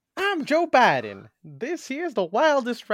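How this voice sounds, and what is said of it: Southern-accented impression of a politician. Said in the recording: “my weird like southern thing in the beginning ... my Biden impression”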